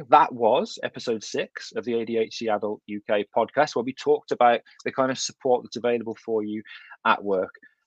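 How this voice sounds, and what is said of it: Thick Kidderminster English accent. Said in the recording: “my thick Kidderminster accent”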